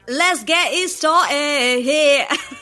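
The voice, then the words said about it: Mumbled put-on accent, swallowed sounds. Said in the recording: “Give me your best accent for that song. ... You like swallowed up all of the vowels and consonants. ... I was also holding my breath, so I don't think I enunciated any of the N's.”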